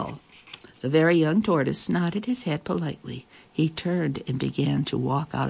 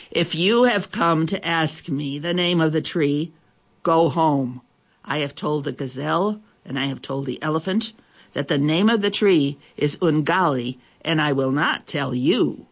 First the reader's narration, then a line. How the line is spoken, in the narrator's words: he roared